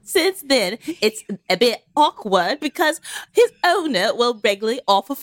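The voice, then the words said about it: Attempted British accent. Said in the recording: “I'm gonna try to do it the British accent too, but I'm really afraid it's gonna be really bad.”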